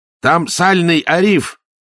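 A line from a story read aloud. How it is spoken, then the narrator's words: Father barking. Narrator (Russian): рявкнул отец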